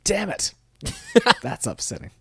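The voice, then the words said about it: Imitates another person's voice. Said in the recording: “I was just practicing my Kiefer Sutherland impression.”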